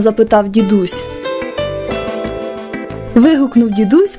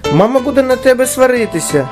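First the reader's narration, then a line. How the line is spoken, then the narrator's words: Shouting brother. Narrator (Ukrainian): закричав брат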